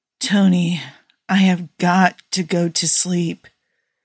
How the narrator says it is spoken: Steve slurred

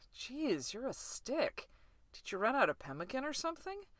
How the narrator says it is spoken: laughed weakly against Ray's stomach

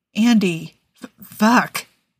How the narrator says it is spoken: Niles stammered

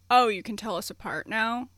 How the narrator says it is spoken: asked Andrew

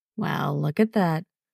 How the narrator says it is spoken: a calm, amused voice murmurs

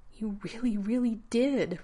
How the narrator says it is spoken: Rodney breathed

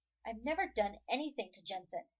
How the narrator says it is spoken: Jared snaps defensively

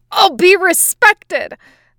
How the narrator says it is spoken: the boy yells

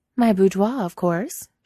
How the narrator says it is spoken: she says brightly

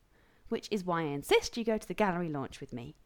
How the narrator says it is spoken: Taylor said triumphantly

